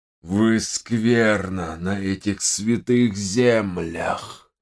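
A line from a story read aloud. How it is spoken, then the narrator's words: Hoarse, weakening voice. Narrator (Russian): прохрипел Раша с слабеющим голосом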